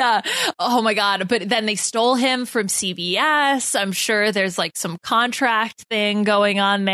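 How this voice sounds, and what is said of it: Usual voice. Nothing is said of it.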